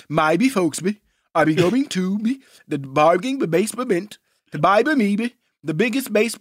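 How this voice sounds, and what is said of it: Cartoon character voice impression. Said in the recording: “Mushmouth. Do your Mushmouth impersonation.”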